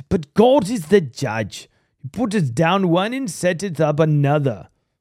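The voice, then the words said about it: Put-on British accent. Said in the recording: “I just want to read it with a British accent because it just sounds so much better”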